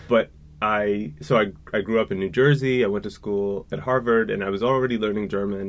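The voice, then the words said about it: American accent. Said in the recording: “I'm from the United States, as you can hear from my voice, and some people ask if I'm Canadian”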